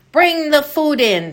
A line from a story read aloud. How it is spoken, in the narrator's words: Tommy cried